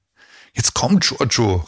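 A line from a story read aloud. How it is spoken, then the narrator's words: Excited call. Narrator (German): rief Gudrun aufgeregt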